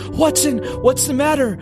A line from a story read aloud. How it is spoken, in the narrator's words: I cried